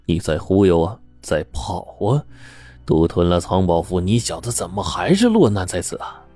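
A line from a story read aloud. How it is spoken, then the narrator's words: Sneering cold laugh. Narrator (Chinese): 顾四便冷笑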